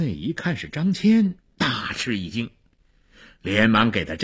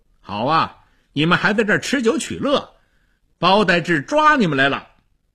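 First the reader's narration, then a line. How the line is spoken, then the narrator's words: Loud. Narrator (Chinese): 张骞他大声地说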